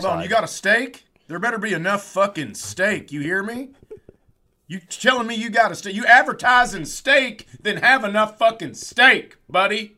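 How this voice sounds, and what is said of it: Poor attempt at Philadelphia accent. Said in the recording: “I know that's not how they sound in Philadelphia, but I can't do that accent.”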